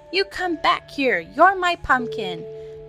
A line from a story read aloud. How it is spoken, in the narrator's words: cried Anton